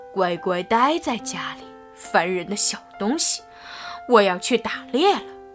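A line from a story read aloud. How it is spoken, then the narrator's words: Giggling. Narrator (Chinese): 特利咯咯的笑着说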